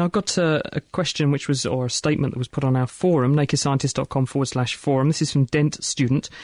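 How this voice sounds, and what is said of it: Usual voice. Nothing is said of it.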